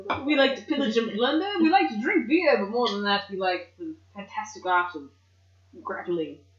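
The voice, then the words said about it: Put-on pirate-ish old-time radio accent. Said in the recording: “It's not even a pirate accent. I don't know what I'm doing. ... I'm just putting on an accent. ... You sound like somebody that does a radio show in like the 10s and 20s. ... It's just not the correct accent. It's a good one”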